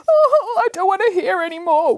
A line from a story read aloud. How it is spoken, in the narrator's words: wailed Boris